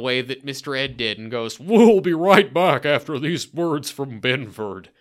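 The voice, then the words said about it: Imitates a talking horse. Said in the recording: “You actually do a really good horse impression.”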